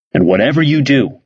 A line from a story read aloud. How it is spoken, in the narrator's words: said Bob Schartzer